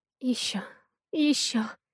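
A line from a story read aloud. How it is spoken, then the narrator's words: Hoarse uncontrolled rasp. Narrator (Russian): Хриплю я, чувствуя, как контроль за действиями и словами окончательно ускользает от меня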